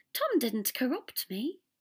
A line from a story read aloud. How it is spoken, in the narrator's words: said brightly